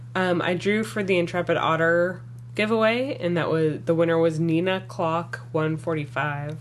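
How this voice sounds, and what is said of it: Scratchy voice. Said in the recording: “my voice is kind of scratchy because I'm getting over being sick.”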